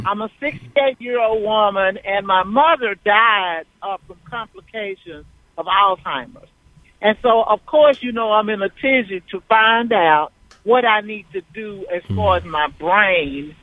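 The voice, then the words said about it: A distinctive regional accent. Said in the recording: “I love the accent ... with a great accent”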